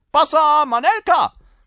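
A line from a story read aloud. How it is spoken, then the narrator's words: Fellow shouting. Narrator (German): ruft der Kerl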